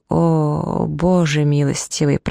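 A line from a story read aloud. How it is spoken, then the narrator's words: Groaning. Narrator (Russian): простонал он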